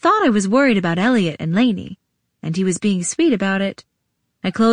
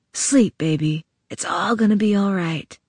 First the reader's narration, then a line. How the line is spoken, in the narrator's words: he whispered in my ear